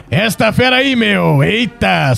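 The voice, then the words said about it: Attempted Faustão impression. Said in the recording (Portuguese): “eu vou tentar fazer o Faustão ... Sai o”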